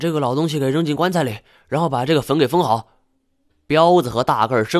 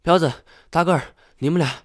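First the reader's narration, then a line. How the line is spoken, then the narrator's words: Breathless, tired. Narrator (Chinese): 他气喘吁吁的坐在地上，歇了一会儿，道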